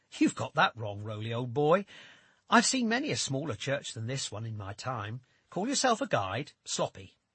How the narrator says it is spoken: I scoff and say out loud

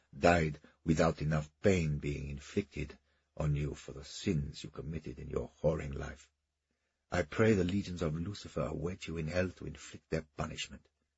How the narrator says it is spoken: he whispered vehemently

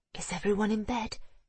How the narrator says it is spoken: whispered

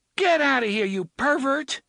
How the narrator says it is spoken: the woman in the linen skirt and the bra cried

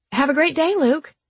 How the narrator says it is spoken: the barista called out to him

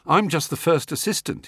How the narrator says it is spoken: he said

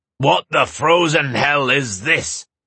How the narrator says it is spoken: Terin roared

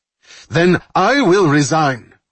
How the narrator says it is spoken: Rafi Mandel shouted

